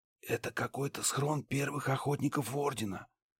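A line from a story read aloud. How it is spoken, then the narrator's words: Whisper. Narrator (Russian): прошептал Ларс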